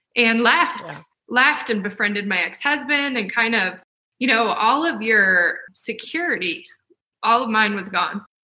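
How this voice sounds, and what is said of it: Teary, emotional voice. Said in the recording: “Still makes me a little teary ... why I got teary.”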